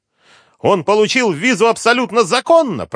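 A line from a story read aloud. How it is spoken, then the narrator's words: Shouted. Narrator (Russian): прокричал месье Кристо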